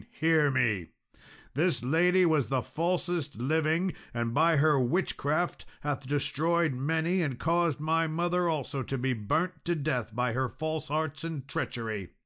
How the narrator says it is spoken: cried Sir Balin

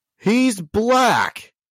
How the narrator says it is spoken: one of them just yells

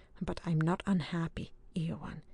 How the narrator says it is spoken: he said, and gently

